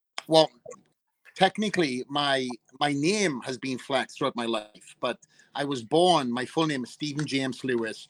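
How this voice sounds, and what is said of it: Strong Welsh accent. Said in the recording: “obviously with this Welsh accent. ... I came on strong with this Welsh.”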